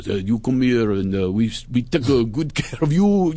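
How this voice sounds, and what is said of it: Put-on Italian accent. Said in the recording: “it all sounds nice with an accent ... drop the accent”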